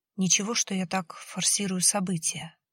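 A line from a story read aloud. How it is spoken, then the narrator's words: Whisper. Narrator (Russian): прошептал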